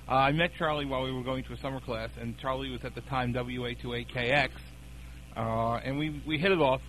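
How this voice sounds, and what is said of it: New York accent. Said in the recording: “In New York City. ... I never would have heard that accent”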